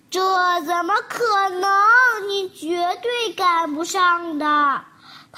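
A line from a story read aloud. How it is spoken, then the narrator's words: Sighing. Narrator (Chinese): 蜗牛叹着气说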